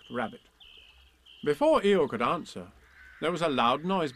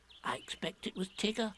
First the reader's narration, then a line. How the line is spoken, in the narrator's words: said Piglet nervously